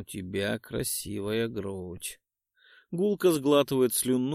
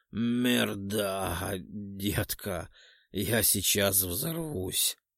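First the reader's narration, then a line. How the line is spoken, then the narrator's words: Passionate hiss through teeth. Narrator (Russian): Зашипел сквозь стиснутые зубы и, находясь во власти сладостного порыва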